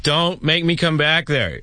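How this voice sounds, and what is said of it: Stern parent voice, dad-like. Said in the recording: “talk like a parent ... Now that's pretty good. That one kind of sounded like my dad.”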